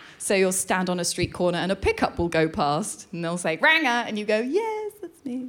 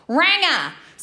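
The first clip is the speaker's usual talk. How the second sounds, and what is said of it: Shouted put-on Australian accent. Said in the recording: “There are two words for ginger people in Australia... You've got to say it in the accent.”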